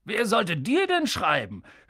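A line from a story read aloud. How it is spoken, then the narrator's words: Mocking. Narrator (German): höhnte Onkel Vernon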